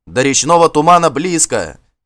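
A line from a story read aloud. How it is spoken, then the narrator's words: Encouraging shout. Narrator (Russian): кричал Гельд, стараясь подбодрить своих людей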